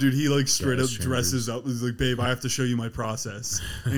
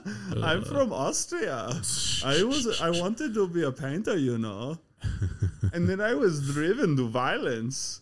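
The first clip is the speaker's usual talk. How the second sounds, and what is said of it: Imitates another person's voice, accented. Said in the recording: “A cute accent.”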